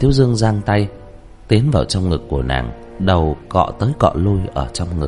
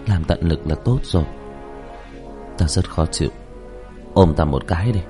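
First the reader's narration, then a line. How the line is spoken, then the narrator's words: Nervous sigh. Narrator (Vietnamese): Như Lãnh Ngọc tâm ý hồi hộp, thở dài nói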